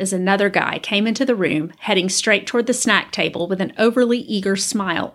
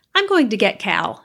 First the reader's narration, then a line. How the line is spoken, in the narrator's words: said quickly